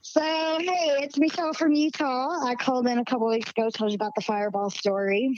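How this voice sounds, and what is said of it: Slight Southern American twang. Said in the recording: “I still got a little southern twang in my voice”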